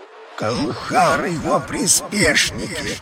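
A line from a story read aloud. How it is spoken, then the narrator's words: Growled. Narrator (Russian): рыкнул Рельгор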